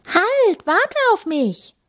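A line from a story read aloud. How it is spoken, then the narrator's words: Calling after someone. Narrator (German): ruft Tami dem kleinen Tierpfleger hinterher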